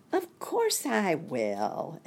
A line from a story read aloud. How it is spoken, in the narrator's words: exclaimed Nicky, who was very kind and polite